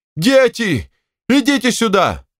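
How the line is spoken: Shout. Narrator (Russian): Степанида Ивановна закричала

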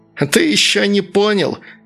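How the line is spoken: Furious shrieking. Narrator (Russian): взвизгивало разъяренное тело

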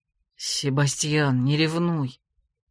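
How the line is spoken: Sad reply. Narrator (Russian): как-то грустно ответил Грег

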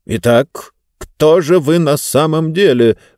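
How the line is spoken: Menacing question. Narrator (Russian): грозно спросил третий

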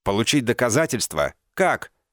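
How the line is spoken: Almost shouting. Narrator (Russian): он почти кричал

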